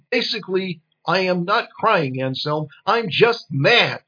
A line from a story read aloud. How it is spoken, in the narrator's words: she yelled